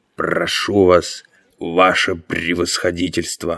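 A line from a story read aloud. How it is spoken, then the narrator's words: Obsequious mutter. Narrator (Russian): Лимар пробормотав подобострастно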